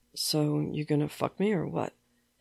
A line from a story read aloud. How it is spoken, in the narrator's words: He mutters against Sam's shoulder